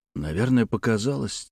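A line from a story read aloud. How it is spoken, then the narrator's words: Quiet reply. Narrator (Russian): тихо ответил Петр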